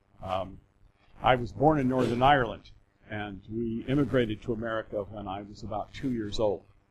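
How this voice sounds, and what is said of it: American accent. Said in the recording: “I do have an American accent, but I'm still British.”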